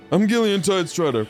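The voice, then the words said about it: Imitates another person's voice. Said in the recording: “my Gillian impression.”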